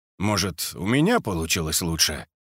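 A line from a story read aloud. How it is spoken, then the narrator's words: Calm question. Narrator (Russian): спокойно спросил Мишалкин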